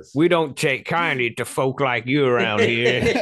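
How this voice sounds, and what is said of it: Put-on Southern American accent. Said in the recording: “American accent... That's my Southern accent”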